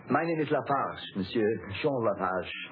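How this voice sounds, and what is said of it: Character with French accent. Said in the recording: “He's got a French accent”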